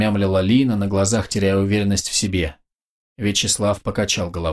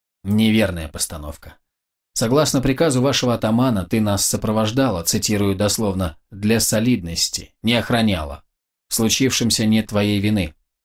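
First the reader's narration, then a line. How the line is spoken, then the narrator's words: Flat, expressionless tone. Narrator (Russian): ровным невыразительным тоном произнес юноша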